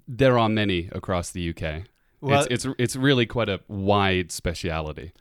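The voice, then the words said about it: British accent. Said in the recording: “It's our British guest for our British series ... my accent might just waft right in the middle of understandability”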